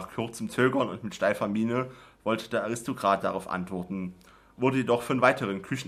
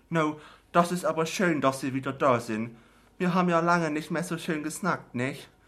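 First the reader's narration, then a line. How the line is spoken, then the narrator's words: Teacup calling from cupboard. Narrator (German): rief die ostfriesische Teetasse aus dem Schrank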